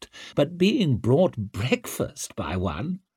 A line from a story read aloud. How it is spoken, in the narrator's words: Orso laughed